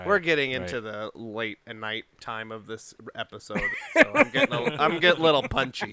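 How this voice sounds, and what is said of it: Usual voice. Nothing is said of it.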